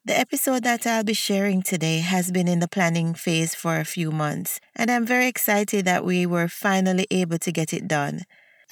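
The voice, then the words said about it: Slightly sick, under-the-weather voice. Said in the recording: “I was a bit under the weather. You might still be able to hear it in my voice”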